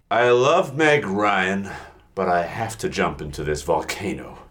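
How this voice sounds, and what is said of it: Silly character voice for a volcano. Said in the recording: “don't do the volcano voice ... volcano to, voice is really hard to listen to ... That's the only voice I can do forever”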